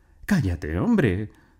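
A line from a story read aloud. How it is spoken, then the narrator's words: Exclaimed. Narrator (Spanish): exclamó doña Ermelinda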